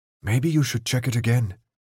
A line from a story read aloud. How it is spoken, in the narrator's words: Newt whispered to Keisha